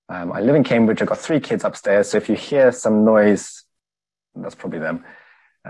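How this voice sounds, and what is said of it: Slight Zimbabwean accent. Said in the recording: “You can hear a bit of an accent. I'm from Zimbabwe.”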